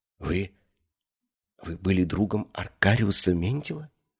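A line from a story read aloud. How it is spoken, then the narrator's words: Whisper. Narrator (Russian): прошептала она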